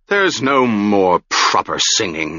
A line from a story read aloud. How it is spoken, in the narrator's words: he said angrily